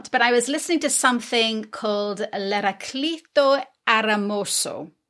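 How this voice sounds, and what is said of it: Put-on Italian accent. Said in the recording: “listen to your Italian ... I love it. ... I probably just butchered it”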